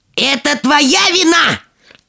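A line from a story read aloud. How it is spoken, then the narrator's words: Furious yelling. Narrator (Russian): от злости, заорала она на младшую дочь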